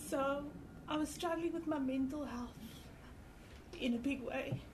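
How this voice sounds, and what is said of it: Emotional, voice breaking. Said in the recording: “I'm getting emotional.”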